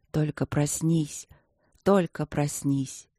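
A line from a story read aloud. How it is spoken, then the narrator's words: Whisper. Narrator (Russian): шептал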